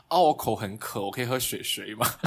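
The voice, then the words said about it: Put-on Taiwanese Mandarin accent. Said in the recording (Chinese): “我换去台湾的口音”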